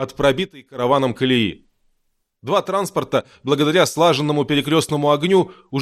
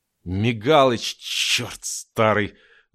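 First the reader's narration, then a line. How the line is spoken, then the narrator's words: Hissing. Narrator (Russian): зашипел сталкер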